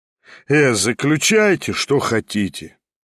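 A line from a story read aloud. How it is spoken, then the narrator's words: Tired, disgusted voice. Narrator (Russian): ответил он усталым и брезгливым голосом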